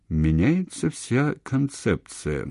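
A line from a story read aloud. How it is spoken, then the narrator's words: Sleepy voice. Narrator (Russian): еще сонным голосом произнес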